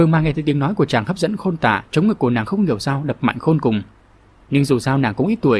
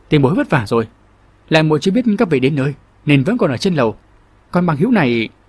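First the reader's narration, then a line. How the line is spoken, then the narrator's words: Loud forced-smile question. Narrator (Vietnamese): Long Thiết gượng cười lớn tiếng hỏi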